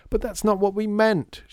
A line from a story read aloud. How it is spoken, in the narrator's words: shouted Lydia